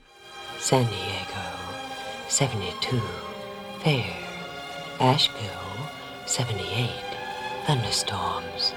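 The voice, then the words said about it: Low breathy Southern-accented female voice. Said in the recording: “southern accent had a certain appeal ... She naturally had a low voice, and so she and the producers decided to make it more breathy.”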